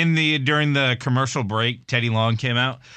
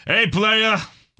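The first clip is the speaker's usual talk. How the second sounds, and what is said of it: Imitates another person's voice. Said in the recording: “That was a good impression of Teddy Long”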